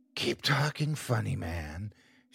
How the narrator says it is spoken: she whispered

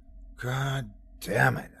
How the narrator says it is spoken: sighed

